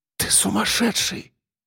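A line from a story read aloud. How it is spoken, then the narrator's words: Breathless whisper. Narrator (Russian): прошептала она, тяжело дыша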